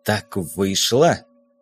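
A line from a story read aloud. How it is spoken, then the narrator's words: Angry, through clenched teeth. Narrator (Russian): процедил флотский со злобой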